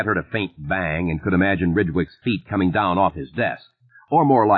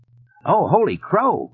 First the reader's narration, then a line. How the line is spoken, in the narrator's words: Ridgewick cried